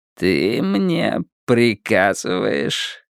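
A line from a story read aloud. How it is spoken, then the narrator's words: Quiet grinning question. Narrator (Russian): тихо спросил Уиттекер с широкой ухмылкой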